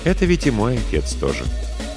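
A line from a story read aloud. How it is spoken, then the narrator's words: Soft, reproachful interruption. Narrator (Russian): мягко, но будто укоризненно перебил его брат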